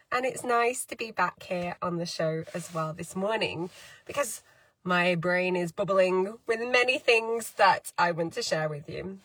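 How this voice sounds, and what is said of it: Hoarse, slightly odd-sounding voice. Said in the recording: “I even lost my voice. So if I sound a little bit funny, it's still the aftermath of COVID.”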